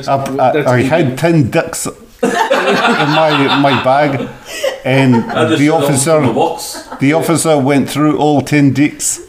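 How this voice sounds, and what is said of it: Put-on New Zealand accent. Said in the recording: “Can you do the story in a New Zealand accent”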